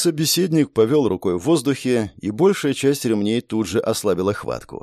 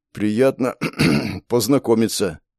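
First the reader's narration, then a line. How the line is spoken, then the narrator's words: Hoarse, after clearing throat. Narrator (Russian): хрипло ответил я, прочистив горло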